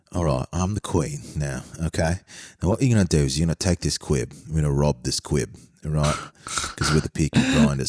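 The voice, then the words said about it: Queen impression, Guy Ritchie-style British accent. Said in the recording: “my Queen impersonation ... Why is every single British guy you do just like the cast of The Gentleman? ... they are all Guy Ritchie.”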